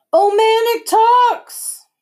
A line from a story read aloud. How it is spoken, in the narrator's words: screamed Eddie